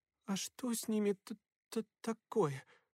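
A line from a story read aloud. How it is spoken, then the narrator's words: Stammering question. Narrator (Russian): спросила, заикаясь Мэг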